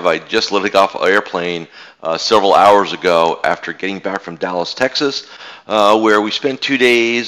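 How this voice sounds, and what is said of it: Slightly raspy voice. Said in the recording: “sorry for the little raspy voice I have”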